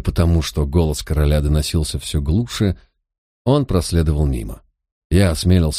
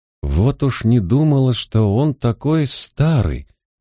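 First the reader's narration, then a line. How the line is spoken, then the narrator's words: Girl sighing. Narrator (Russian): вздохнула девушка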